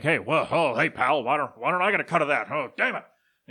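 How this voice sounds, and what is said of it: Imitates another person's voice. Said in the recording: “I don't know if that was a good Vince McMahon impression or not.”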